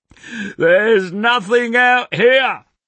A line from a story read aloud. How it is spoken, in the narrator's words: he yells